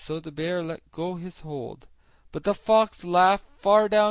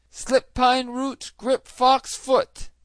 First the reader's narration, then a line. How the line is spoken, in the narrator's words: he cried